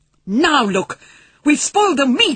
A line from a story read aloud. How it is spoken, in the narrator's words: he shouted at Patrick